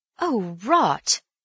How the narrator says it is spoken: said Bill uneasily

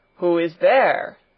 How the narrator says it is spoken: thundered the doctor, in a voice that echoed through the hall

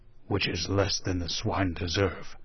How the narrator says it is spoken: growled Wolverstone

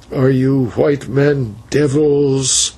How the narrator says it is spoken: said the old man, with a groan that seemed to burst from the bottom of his heart

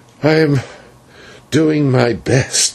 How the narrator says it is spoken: he answered feebly

